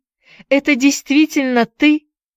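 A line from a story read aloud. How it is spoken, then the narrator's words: Exclaiming. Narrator (Russian): воскликнула она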